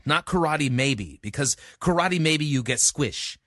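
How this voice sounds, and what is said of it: Imitates another person's voice. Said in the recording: “That's my best impression of Pat Morita.”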